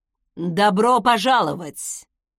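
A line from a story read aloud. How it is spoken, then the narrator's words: Loud deep fatherly voice. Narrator (Russian): Громко пробасил отец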